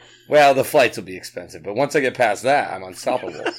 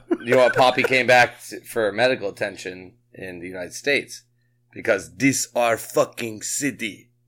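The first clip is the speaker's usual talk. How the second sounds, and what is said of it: Poor put-on Dominican accent. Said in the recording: “That sounded Russian. It didn't sound Spanish. ... I don't have a good Dominican accent. I'm working on it. It's a work in progress.”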